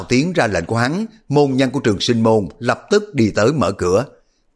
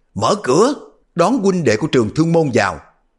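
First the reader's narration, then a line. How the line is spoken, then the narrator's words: Raised voice. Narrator (Vietnamese): Các tu mới cất cao giọng nói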